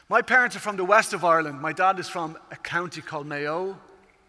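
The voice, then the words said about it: Irish accent. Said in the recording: “I come from Ireland, as you can tell at this stage by the accent.”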